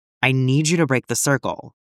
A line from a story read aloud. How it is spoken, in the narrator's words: told him firmly